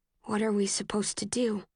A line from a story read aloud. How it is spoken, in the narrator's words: I say, my voice barely more than a whisper